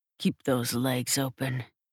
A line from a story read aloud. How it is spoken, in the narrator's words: growls